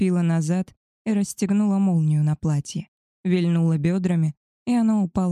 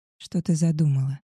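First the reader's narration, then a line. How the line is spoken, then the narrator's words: Strained hoarse rasp. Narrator (Russian): Сдавленно прохрипел Габриэль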